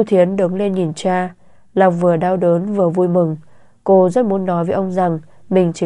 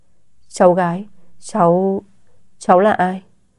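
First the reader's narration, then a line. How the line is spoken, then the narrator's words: Stammering old man. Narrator (Vietnamese): Ông lắp bắp nói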